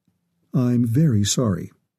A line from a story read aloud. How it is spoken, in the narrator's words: Turner said, keeping his voice even